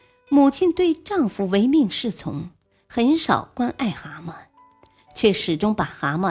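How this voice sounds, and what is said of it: Usual voice. Nothing is said of it.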